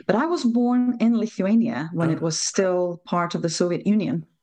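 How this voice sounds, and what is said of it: Non-native English accent. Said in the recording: “Probably from my accent, you will realize I'm not native, I'm not local”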